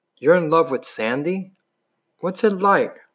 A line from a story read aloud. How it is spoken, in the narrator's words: He sighed happily